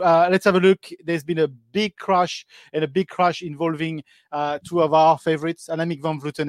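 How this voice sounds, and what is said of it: French-accented English. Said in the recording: “My accent is very French in English”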